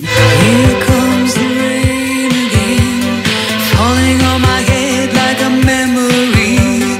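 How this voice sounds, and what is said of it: Loungy sung imitation of a singer. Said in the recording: “my impression ... It's an interesting Annie Lennox ... it's kind of like a loungy Annie Lennox”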